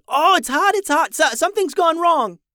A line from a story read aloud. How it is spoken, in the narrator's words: jerked her hand back quickly and yelled